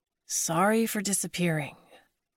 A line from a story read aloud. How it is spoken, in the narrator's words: Mackenzie whispered